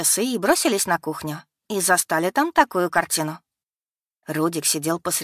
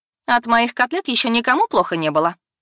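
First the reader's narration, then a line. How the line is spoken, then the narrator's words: Cold mother's voice. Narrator (Russian): холодно ответила мама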